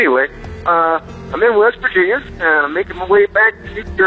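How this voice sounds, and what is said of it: Usual voice. Nothing is said of it.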